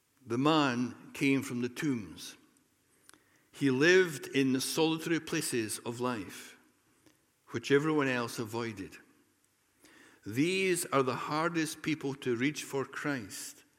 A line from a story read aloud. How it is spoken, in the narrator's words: says Calvin